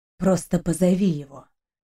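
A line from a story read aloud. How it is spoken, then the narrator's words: Inner voice whispering. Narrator (Russian): Шепнул внутренний голос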